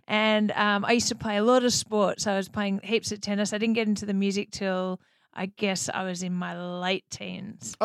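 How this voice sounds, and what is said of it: Australian accent. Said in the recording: “I've got this funny accent ... the Australian accent is popular here”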